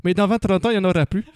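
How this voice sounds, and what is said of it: Put-on Canadian French accent. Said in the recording (French): “Pourquoi avec l'accent canadien ?”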